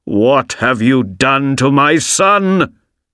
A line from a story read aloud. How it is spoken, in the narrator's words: shouted